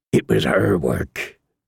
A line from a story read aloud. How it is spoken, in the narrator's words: Davis said again, more weakly